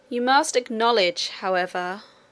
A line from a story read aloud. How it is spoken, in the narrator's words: said the king with a little groan